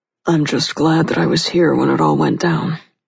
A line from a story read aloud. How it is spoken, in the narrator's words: he said in a low, gruff voice